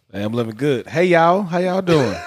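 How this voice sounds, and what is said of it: Country Southern accent. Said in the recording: “you getting your country accent back ... I'm getting that country accent back in there”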